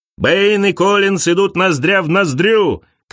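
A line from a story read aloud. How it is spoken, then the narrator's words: Commentator shouting. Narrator (Russian): кричал комментатор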